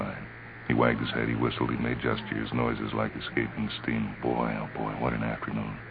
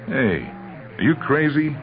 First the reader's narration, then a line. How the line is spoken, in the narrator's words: Oscar yelled